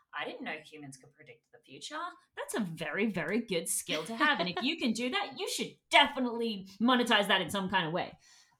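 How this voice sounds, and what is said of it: Sarcastic tone. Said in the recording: “I know I'm being sarcastic,”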